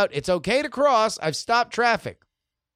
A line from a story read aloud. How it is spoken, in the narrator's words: I called out